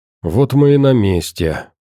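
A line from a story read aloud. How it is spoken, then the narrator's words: Tired sigh. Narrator (Russian): устало вздохнув, произнес Вадим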